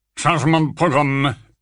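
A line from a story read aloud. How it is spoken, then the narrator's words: Grumbled. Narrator (French): grogna Folleuil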